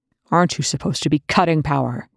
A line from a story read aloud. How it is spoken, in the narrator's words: Young growled at McKay